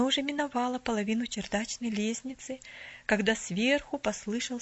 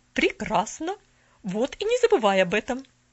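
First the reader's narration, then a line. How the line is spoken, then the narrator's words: Thoughtful. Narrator (Russian): Задумчиво произнесла тетя Поля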